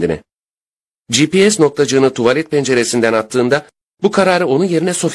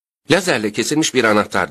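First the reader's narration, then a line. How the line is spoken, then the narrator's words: Plain. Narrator (Turkish): dedi Sophie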